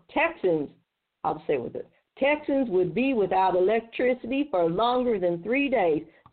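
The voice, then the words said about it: Put-on Texas accent. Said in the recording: “I'm going to use a Texas accent”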